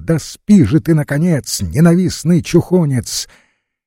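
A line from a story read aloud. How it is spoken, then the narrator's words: Loud angry shout. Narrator (Russian): Горданов сердито огрызнулся и громко крикнул на него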